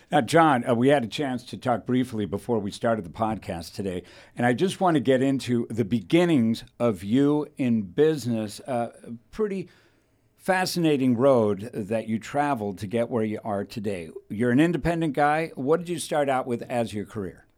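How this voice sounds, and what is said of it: Smooth radio announcer voice. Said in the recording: “radio voice ... I'm impressed by ... radio voice. It's natural. He's a natural.”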